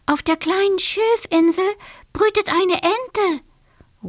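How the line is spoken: Small water sprite calling. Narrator (German): ruft der kleine Wassermann

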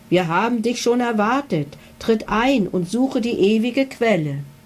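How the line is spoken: Tinny dragon voices. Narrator (German): Die beiden Drachen sagten mit blecherner Stimme

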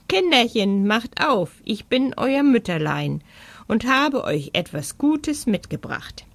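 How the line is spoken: Growl. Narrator (German): brummte

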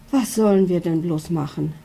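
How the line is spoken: Worried mother sighing. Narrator (German): seufzt die Mama mit sorgenvollem Blick

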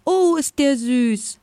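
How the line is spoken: Delighted exclamation. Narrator (German): rief sie

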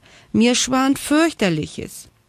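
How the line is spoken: Calling down from above. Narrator (German): rief Frieda von oben herab

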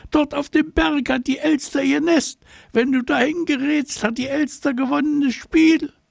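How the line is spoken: Agitated wailing. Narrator (German): geriet ganz aus dem Häuschen, aufgeregt, jammerte

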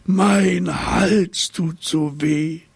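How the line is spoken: Giraffe whining. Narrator (German): jammerte die Giraffe

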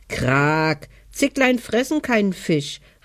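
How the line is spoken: Wild duck calling out. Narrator (German): rief die Wildente, Schnatterliese

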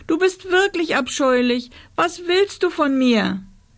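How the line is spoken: Sobbing. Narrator (German): schluchzte Rosa

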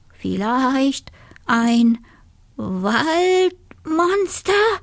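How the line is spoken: Wolf stammering. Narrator (German): stotterte der Wolf

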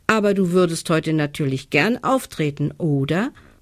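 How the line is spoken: Plain question. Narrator (German): fragt sie

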